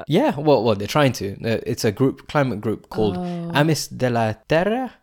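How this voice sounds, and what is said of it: Put-on Spanish accent. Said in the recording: “I'm reading it in a Spanish accent”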